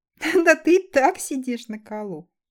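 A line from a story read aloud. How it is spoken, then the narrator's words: Laughing. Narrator (Russian): Рассмеялась Элли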